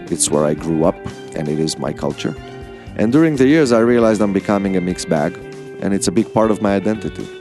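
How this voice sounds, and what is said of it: Israeli-accented English. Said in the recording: “I have an accent... I'm also Israeli... another Israeli accent”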